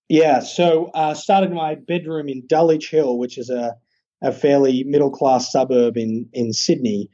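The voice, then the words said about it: Australian accent. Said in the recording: “I know people are going to notice the accent. So did the company start in Australia?”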